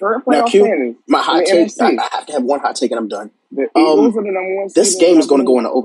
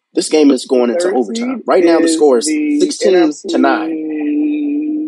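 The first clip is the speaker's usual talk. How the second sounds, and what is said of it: Sports announcer style voice. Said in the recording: “speak in my Dan Rye voice”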